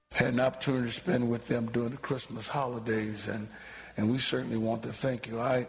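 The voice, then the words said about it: Voice affected by a cold. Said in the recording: “Y'all can probably still hear it in my voice. I don't know what this strand of cold that is going around, but it is hard to get rid of.”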